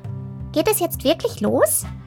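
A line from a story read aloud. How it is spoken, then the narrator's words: Squeaky piping voice. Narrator (German): piepste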